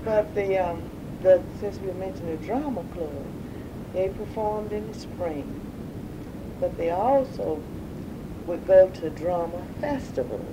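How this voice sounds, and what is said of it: Slow Southern American accent. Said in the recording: “I know this southern accent. It's very slow.”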